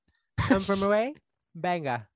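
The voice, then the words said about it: Attempted British accent. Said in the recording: “It would be better if you said it in a British accent. ... That was better. I mean, it's still far off from like how it should actually be said”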